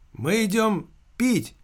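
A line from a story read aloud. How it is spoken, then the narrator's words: Shouted reply. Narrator (Russian): прокричал в ответ дядя Сережа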